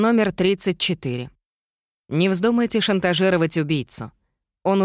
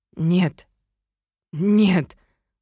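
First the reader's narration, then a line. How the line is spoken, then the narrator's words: Piercing, hoarse voice. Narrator (Russian): услышала я собственный голос, пронзительный и хриплый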